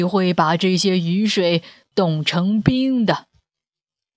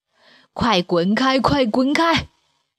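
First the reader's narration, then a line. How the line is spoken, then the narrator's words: Roaring. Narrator (Chinese): 大山吼叫着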